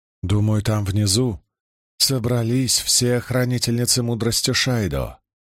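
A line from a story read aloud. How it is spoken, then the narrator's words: Very calm, casual. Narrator (Russian): ответила Марлин так спокойно, словно речь шла о ценах на ячмень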